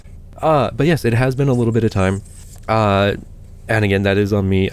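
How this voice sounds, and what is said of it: Weak, strained voice after illness. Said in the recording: “I do apologize for the way that I sound ... I completely lost my voice. I'm still finding it piece by piece”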